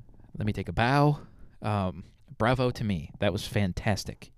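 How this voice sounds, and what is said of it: Usual voice. Nothing is said of it.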